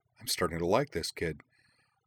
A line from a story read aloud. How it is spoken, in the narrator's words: Wakaba muttered quietly, grinning